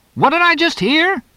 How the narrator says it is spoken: Sills shouted

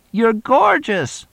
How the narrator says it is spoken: screamed the other one

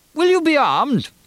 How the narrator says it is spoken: Kriegel asked in a high voice

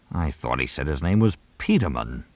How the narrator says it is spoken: Mooney muttered

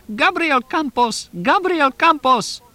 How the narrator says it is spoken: Shrieking

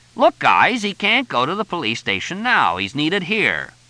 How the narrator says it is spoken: Frank was saying loudly

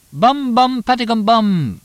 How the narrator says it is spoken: Tonino shouted through the window at them

